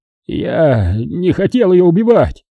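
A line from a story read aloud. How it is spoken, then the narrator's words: Strained, forced out. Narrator (Russian): выдавил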